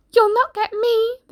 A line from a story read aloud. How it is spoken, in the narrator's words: the piggy cried